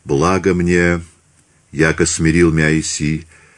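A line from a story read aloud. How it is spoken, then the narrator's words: Whisper. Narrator (Russian): прошептал он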